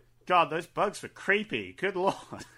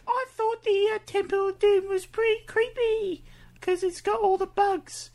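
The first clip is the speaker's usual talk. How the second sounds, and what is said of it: High-pitched young boy voice. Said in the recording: “8-year-old ... My voice is really high because my balls haven't dropped.”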